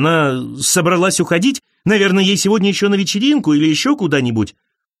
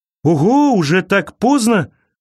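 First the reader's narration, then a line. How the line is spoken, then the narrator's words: Exclaiming. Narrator (Russian): воскликнул он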